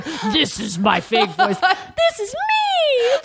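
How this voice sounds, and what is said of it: Exaggerated super high-pitched voice. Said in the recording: “When I do an impression of myself, it's super high.”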